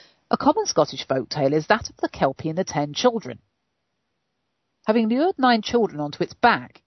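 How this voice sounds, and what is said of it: Usual voice. Nothing is said of it.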